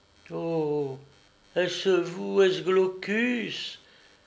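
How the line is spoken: Rapturous exclamation. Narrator (French): s'écria la bouquetière avec un indicible transport

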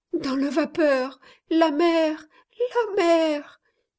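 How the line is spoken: Moaning girl, teeth chattering. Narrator (French): gémit la malheureuse jeune fille, les dents entrechoquées

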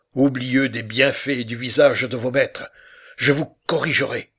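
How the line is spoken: Male shouting. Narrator (French): criait-il

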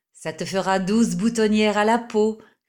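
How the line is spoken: Sneering. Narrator (French): ricanait un autre

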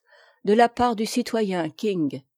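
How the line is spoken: Low-voiced reply. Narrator (French): Il répondit, toujours à voix basse

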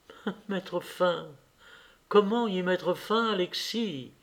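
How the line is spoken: Soft voice. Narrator (French): dit doucement

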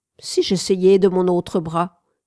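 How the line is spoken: Plain. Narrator (French): dit

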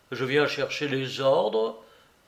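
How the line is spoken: Plain. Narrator (French): il dit

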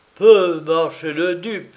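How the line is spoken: Exclaimed. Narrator (French): s'écria-t-il

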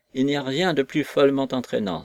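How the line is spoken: Cry. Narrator (French): s'écria Messi

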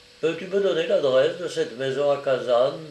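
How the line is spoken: Plain question. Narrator (French): demanda-t-il finalement

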